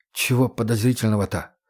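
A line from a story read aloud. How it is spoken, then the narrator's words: Whisper. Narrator (Russian): прошептал Егор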